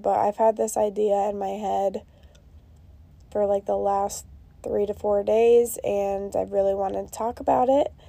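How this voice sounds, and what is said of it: Sick, strained voice. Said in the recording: “apologize for my voice... As you can tell, I obviously don't feel the greatest... I do have COVID”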